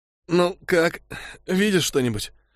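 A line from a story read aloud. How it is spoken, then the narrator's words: Hoarse question. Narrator (Russian): хрипло спросила Утл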